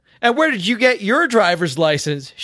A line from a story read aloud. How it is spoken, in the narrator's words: She shouted